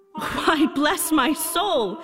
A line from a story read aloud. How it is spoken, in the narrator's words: cried Fred